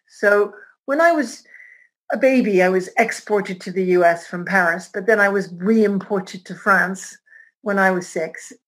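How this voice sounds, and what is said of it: American accent. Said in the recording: “you probably hear my American accent ... the most American-sounding French person you'll ever meet”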